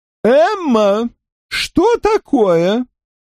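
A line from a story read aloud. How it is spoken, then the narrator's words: Exclaiming. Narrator (Russian): воскликнула миссис Уинтертаун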